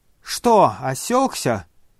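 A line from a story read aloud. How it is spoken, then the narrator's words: Shouting young man. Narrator (Russian): крикнул молодой человек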